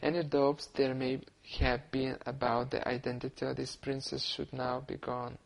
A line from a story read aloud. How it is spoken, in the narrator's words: said quietly